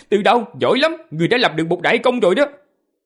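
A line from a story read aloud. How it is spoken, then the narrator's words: Loud laughing praise. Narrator (Vietnamese): gã cười to rồi nói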